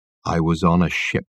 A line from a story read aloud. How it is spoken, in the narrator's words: Michael Wenton Weeks said in a low voice